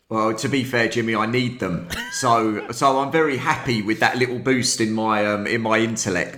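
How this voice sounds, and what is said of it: British accent. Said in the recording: “when I heard the accent, I was going to say Texas, maybe Louisiana, something like that... as soon as you guys start talking with the accent, you get like 10 or 15 IQ points added on. You just sound smarter.”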